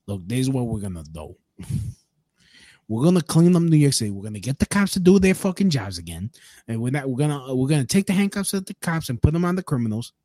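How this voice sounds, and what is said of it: Curtis Sliwa New York accent impression. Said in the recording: “We're from New York City. Like, I trust the guy with the fucking accent.”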